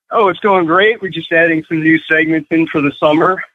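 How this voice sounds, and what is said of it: Slightly out of breath. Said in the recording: “I'm a little out of breath. I'm at the gym.”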